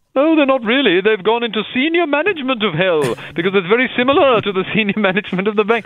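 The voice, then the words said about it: Ghost character with an uncertain accent. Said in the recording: “Ghost of Uncertain Accent”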